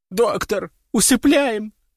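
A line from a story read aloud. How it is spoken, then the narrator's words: Blurted through heavy sobbing. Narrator (Russian): выпалила, рыдая в три ручья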